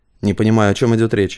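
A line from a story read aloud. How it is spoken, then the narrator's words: Dry, curt. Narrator (Russian): сухо сказал Рыков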